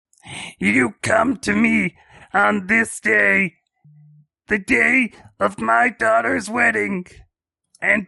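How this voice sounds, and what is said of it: Gangster-style frog character voice. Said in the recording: “Does that more like Robert De Niro as a frog? ... Robert De Niro is doing a Kermit”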